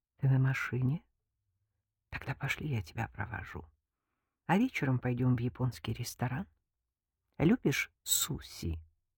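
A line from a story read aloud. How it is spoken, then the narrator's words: Intimate whisper in ear. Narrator (Russian): прошептал на ухо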